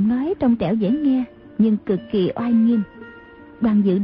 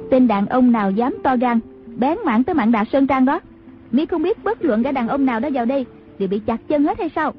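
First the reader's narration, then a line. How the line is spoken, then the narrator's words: Woman's distant shout. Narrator (Vietnamese): có tiếng đàn bà quát vọng ra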